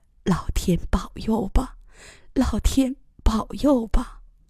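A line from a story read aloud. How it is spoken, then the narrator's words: Murmured prayer. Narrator (Chinese): 嘴里喃喃地祷告着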